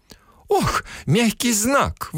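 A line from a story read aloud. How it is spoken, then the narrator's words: Breathy exhale. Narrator (Russian): выдохнула буква Ша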